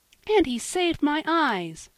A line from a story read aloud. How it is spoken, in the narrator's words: cried Polly, full of gratitude